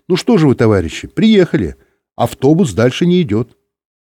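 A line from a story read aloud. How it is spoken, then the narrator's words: Cheerful. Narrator (Russian): Бортпроводница весело сказала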